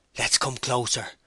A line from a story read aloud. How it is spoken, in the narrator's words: whispered Samway